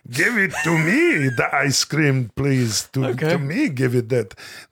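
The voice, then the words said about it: Yoda character voice impression. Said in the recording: “my impersonation of Yoda”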